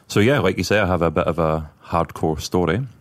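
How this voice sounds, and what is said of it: Scottish accent. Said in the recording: “from the accent we've already discussed, I was born and raised in Scotland”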